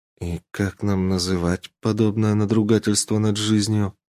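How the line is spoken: Grim question. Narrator (Russian): Мрачно спросила Веленика

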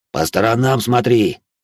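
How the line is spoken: Leader's harsh bark. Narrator (Russian): рявкнул вожак

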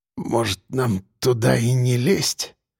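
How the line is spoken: Barely audible. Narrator (Russian): предложил он едва слышно

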